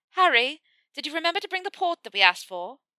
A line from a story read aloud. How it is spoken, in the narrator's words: Pansy, who sticks her head around the doorframe to shout